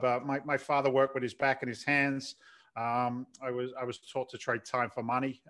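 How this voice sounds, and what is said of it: London English accent, slight Boston twang. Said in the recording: “London born, London bred ... it's not a Boston accent ... there's a little bit of Boston attached to it ... a little bit of the twang”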